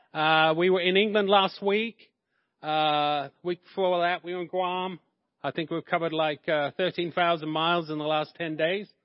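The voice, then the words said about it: English accent. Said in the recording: “I'm originally from England, hence the accent.”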